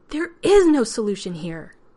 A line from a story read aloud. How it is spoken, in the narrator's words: Elizabeth was shouting too, now, but she was far angrier at the situation